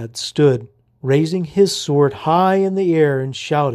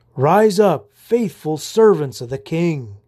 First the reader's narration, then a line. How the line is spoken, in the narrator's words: he exclaimed for all to hear